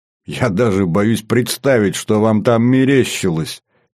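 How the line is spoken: Giggling. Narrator (Russian): хихикнул я

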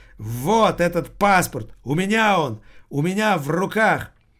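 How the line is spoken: Shocked cry, beggar. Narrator (Russian): Нищий потрясенно вскрикнул

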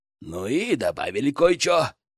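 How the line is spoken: Snorting chuckle. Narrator (Russian): хмыкнул Баттер

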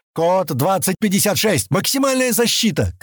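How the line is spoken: Shouted. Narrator (Russian): крикнул он

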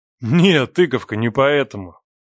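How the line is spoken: Laughing. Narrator (Russian): Отсмеялся Леха

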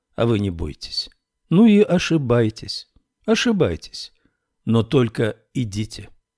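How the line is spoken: Very calm and simple. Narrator (Russian): Святослав Николаевич сказал очень спокойно и просто

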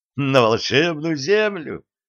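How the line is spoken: Laughing uncontrollably. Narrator (Russian): Шефер не сдержался и засмеялся

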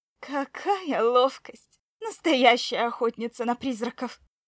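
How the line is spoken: Distant laughter. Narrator (Russian): Гвида хохотал где-то вдалеке

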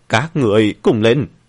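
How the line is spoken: Angry shout. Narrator (Vietnamese): Hắn giận dữ mà hét lên

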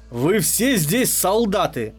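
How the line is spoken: Angry barking woman. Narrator (Russian): злобно рявкнула женщина

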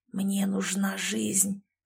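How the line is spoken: Hoarse rasp. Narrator (Russian): прохрипел мужчина

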